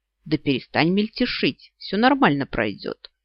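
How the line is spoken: Wry snort. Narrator (Russian): хмыкнул он

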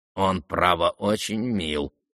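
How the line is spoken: Old man mumbling. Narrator (Russian): пробормотал опять старичок Ивану Петровичу

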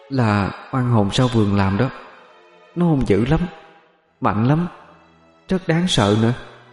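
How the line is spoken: Trembling, ghostly voice. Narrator (Vietnamese): Hồn ma của Thúy cất giọng run run bên tai cậu

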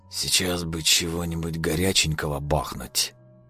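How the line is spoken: Mumble. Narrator (Russian): пробормотал он

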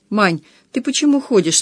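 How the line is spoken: Confused question. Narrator (Russian): спросил он растерянно

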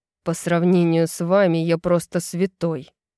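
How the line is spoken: Grumbling. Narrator (Russian): проворчал Рун

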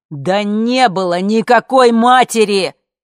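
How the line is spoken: Shout. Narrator (Russian): закричал А

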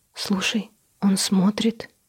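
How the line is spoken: Frightened whisper into ear. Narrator (Russian): прошептала испуганно Гоша в ухо

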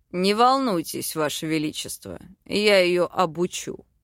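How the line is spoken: Smirking demon. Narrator (Russian): хмыкнул демон

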